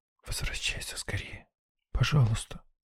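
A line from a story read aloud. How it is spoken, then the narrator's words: Girl whispering. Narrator (Russian): шепнула девушка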